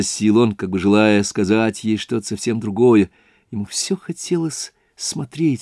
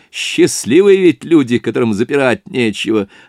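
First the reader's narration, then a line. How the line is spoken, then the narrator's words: Laughing. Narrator (Russian): обратился он, смеясь, к Соне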